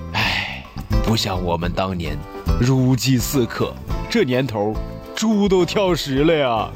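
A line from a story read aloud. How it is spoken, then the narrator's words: Long sigh. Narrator (Chinese): 爸爸长长的叹息声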